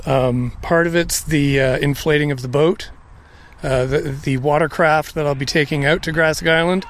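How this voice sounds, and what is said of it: Out of breath, panting speech. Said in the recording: “I'm a little out of breath,”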